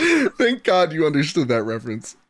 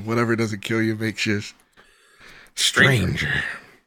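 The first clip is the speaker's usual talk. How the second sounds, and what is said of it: Bad Joker villain impression. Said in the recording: “that bad Joker impression”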